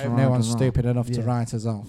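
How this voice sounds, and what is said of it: Good impression of another man. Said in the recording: “That was quite a good impression”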